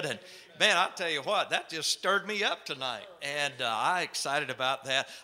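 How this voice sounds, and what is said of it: Southern North Carolina accent. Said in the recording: “you're from North Carolina, that accent ... down south folksy”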